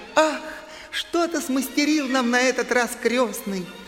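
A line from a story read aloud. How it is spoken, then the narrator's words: Joyful exclamation. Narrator (Russian): Мари от радости воскликнула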